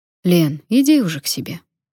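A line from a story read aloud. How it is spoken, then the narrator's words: Gentle request. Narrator (Russian): мягко попросил Сергей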